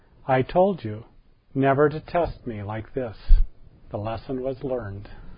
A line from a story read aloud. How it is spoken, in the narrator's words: she very solemnly told him